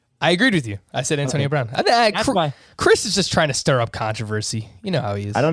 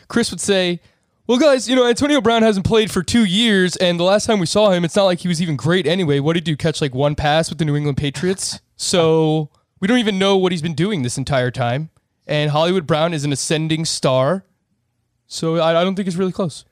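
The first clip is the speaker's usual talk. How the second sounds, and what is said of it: Impression of a friend, slightly fast. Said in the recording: “actually does a pretty good Chris impression ... I think that's really good. You just got to slow it down, because he's methodical with how he talks.”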